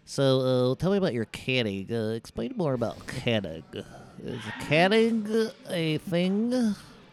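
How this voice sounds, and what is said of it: Imitates another person's voice. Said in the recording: “is that what he sounds like? ... your podcast voice? ... That's his voice?”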